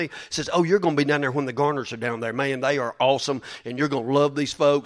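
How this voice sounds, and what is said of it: Redneck-sounding American accent. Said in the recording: “my accent throws all that away. ... let me talk like a redneck.”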